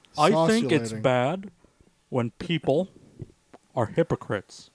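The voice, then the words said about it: Boring old man character voice. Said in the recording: “That was a good Hank Hill impersonation. You just nailed it. ... I was an awful Hank Hill. I was just trying to be some boring, ... old man, ... liberal.”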